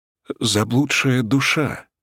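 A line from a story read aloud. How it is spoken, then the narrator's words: Frightened trembling voice. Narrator (Russian): испуганно затряслась Силь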